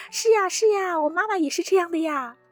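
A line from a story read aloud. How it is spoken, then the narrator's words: Children clamoring noisily. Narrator (Chinese): 孩子们都在那嚷嚷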